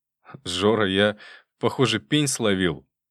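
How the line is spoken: Nervous giggle. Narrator (Russian): нервно хихикнув, сказал

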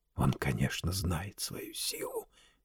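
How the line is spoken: Furious whisper. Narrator (Russian): яростно шептал Варбек

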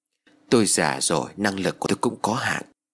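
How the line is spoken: Sighing old man. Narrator (Vietnamese): Thầy liền thở dài rồi đáp

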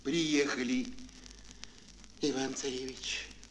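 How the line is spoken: Plain. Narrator (Russian): волк сказал

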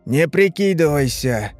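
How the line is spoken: Tired voice. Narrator (Russian): уставшим голосом произнес Дильс

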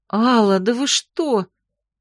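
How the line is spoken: Horrified breath. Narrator (Russian): В ужасе выдохнула

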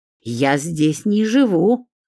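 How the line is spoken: Offended hiss. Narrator (Russian): Оскорбленно зашипела Ольга

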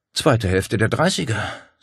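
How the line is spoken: Sigh. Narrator (German): seufzte sie

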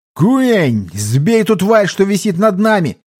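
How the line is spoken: Shout. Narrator (Russian): я закричал

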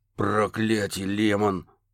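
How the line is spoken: Hoarse growl. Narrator (Russian): хрипло прорычал детектив

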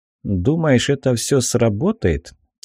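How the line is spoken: Quiet question. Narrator (Russian): Тихо спросил я

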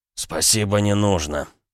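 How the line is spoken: Hoarse wheeze. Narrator (Russian): просипел он

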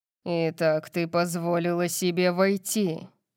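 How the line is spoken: Growled. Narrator (Russian): прорычал он

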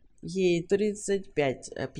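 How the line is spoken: Drunken voice. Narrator (Russian): пьяным голосом сказал Уилт

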